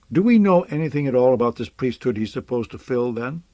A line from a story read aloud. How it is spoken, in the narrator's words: he asked harshly